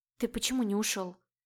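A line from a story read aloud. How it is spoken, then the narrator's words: Whispered. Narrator (Russian): Прошептала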